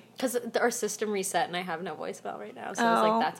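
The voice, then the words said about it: Congested, nasal voice from a cold. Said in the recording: “I have a cold right now, so that's why I sound so ... Nasally.”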